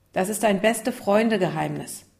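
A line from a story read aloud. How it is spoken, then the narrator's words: Firm voice. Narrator (German): Lukas mit fester Stimme sagen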